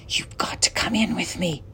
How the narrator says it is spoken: whispered

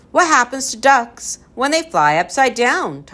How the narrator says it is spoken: Tom cried

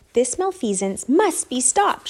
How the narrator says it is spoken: shouted Flora

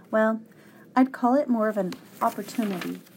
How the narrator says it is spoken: said the professor

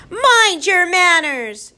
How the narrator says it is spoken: in an angry voice

